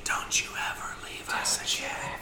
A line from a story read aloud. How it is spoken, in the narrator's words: his sister, like, kind of romantically whispers into his ear